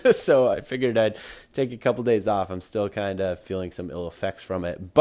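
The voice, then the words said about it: Sick, under-the-weather voice. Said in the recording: “as you can probably hear in my voice right now, I've been a little under the weather”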